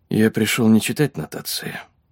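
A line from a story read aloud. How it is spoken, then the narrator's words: Quiet reply. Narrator (Russian): тихо ответил он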